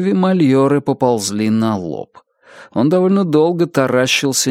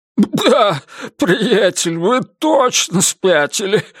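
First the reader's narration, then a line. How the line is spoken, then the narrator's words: Forced out after laughing. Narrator (Russian): выдавил наконец Мальоре, закончив смеяться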